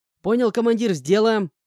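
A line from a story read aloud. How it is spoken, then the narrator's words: Joyful young reply. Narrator (Russian): радостно ответил паренек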